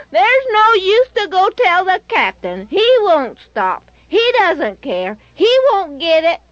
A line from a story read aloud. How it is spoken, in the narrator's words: hollering